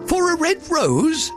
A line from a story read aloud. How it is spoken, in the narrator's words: the flowers cried